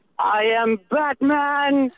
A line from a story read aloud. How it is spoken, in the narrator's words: I was like, in the loudest voice, I was like